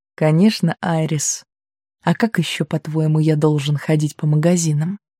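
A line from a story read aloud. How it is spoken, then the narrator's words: Whisper. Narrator (Russian): прошептал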